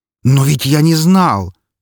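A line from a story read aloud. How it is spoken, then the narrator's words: Nearly shouting. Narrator (Russian): почти закричал огневик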